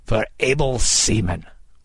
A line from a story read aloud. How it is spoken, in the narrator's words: Kidd cried